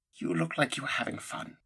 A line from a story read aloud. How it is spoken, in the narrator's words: she whispered